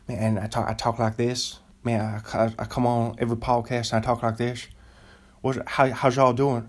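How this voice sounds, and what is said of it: Put-on Southern US accent. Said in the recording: “if I had a Southern accent ... That's actually a pretty good Southern accent I was just doing right there ... I think this is just kind of a Tennessee accent ... This is like a NASCAR accent ... It sounds like I got a dip”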